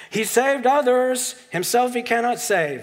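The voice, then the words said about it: Put-on Jewish accent. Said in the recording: “This is my best Jewish accent.”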